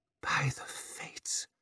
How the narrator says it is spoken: she whispered, unable to stop herself putting her hand over her mouth at the overpowering stink

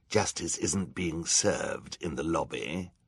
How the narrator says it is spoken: Olaf growled

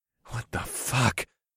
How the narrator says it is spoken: gasped

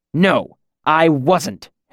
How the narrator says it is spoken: Hem snapped

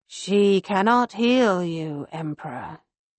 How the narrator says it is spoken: the Nightbringer says, in his deep, unsettling voice

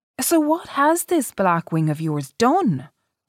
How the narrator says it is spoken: she exclaimed, suddenly frightened

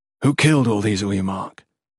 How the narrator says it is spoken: Gerund asked

